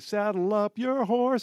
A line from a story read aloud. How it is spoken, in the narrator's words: yelling